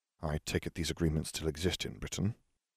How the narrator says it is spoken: Harry muttered

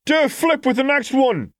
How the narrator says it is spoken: someone else yelled after a loud whistle

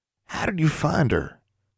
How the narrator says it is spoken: she asked softly

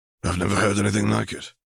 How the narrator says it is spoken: he muttered

